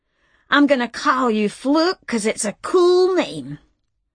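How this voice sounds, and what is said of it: Southern American accent. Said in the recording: “The accent was American, somewhere southern.”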